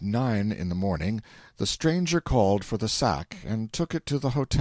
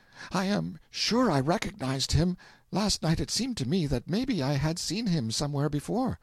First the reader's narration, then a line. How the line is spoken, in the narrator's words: She came back flushed and a little unsteady on her legs, and gasped out